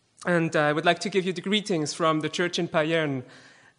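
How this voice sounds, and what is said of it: Swiss-accented English. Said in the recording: “my Swiss accent, which still is there despite all the teaching I receive with Stephanie, I hope my accent will not be too disturbing for you”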